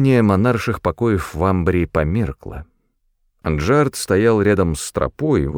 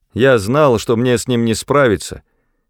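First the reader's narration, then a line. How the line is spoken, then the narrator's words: Shout. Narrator (Russian): крикнул он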